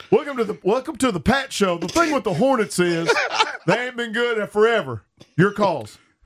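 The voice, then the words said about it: Put-on North Carolina accent. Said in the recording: “I don't know what voice that is for Pat ... that's a North Carolina accent.”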